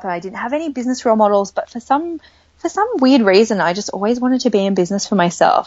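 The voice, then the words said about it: Australian accent. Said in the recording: “I am Australian, for those of you who can probably hear that from my accent.”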